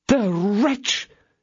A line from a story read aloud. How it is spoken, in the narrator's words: exclaimed her ladyship